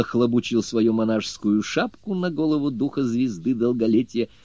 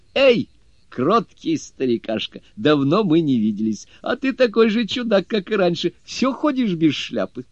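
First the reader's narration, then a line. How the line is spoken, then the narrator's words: Laughing. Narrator (Russian): Джу Бадзе смеясь, сказал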